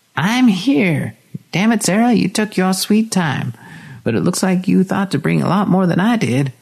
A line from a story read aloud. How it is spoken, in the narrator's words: Linda cackled wildly